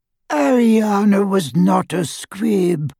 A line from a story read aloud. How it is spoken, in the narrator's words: wheezed Doge